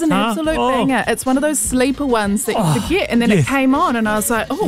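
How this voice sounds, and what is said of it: Usual voice. Nothing is said of it.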